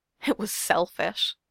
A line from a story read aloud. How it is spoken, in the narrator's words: Beck says, her voice breaking again